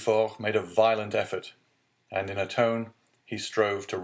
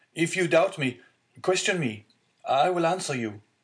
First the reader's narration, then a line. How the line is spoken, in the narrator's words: cried the unhappy young man